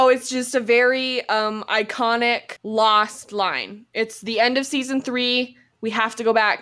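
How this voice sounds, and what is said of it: Usual voice. Nothing is said of it.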